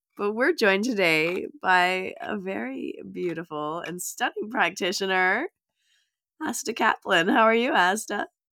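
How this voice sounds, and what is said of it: Sick, strange-sounding voice. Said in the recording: “my voice is a little bit crazy today, a little funny ... You're really not well, are you?”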